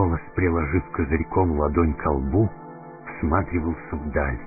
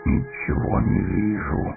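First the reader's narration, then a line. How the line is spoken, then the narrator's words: Grumbling. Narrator (Russian): проворчал Гимли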